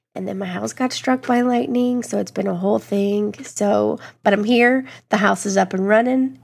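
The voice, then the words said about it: Sick, rough-sounding voice. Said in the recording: “under the weather, feeling a little rough today ... excuse my voice ... I've been sick for about a week”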